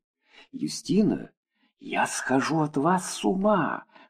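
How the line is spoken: Whispered in ear. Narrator (Russian): шепнул мне на ухо Рихард

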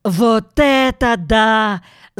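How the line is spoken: Excited yell. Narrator (Russian): завопил он

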